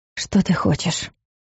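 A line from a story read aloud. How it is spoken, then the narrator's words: Barely audible breath. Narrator (Russian): выдохнула едва слышно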